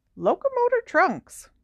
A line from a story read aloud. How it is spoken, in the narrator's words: He squeaked